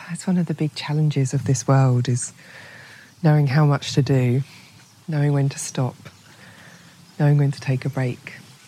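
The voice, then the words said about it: Slightly hoarse voice. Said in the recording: “As you can hear, I'm a little bit hoarse after a week of talking to interesting people on various podcasts.”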